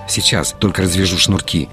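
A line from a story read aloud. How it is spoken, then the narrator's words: Muttering. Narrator (Russian): пробормотал Арслан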